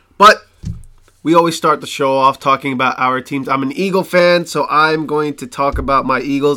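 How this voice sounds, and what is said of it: Hoarse, strained voice. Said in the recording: “forgive my voice ... I was screaming like crazy ... so my voice is shot”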